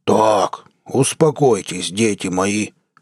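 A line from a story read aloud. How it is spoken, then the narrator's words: Deep bass voice. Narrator (Russian): пробасил Перейро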